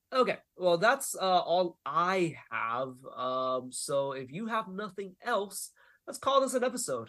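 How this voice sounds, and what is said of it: Congested, nasal sick-sounding voice. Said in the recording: “my nose is plugged up as shit ... my voice is a little different because I am a little bit on the sick”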